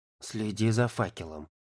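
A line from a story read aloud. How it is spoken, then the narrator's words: Whisper. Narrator (Russian): шепнул Ярик Славке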